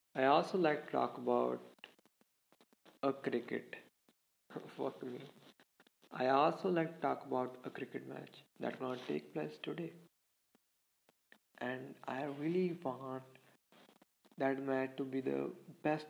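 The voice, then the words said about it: Shaky, rough voice from sore throat. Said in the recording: “My throat is not that good from today ... my voice is a little bit shaky or like ... how your voice came out your mouth when you have a cough ... kind of look like a monster voice”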